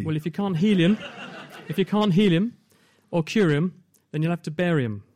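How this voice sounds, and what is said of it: Put-on Australian accent. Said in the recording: “this works best with an Aussie accent.”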